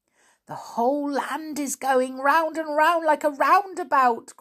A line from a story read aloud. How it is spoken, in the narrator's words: cried Joe, shutting his eyes with dizziness